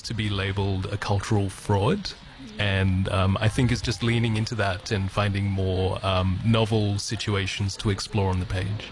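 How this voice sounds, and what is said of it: Australian accent. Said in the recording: “you've got a beautiful Australian accent”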